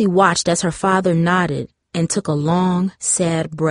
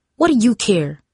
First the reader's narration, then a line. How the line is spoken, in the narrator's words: snapped